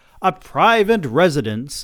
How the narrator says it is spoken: I shouted back

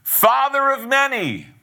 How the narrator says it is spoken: she shouts

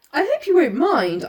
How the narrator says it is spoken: I stammered

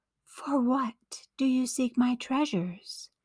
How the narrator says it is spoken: came the whispers, though Barilo could find no one around him

